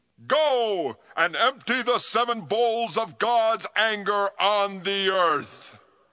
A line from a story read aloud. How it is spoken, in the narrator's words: From the temple, I heard a voice shout